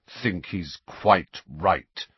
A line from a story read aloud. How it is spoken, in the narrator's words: said Sirius through clenched teeth